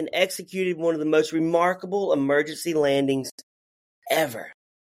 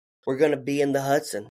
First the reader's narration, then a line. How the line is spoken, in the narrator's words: He calmly told air traffic control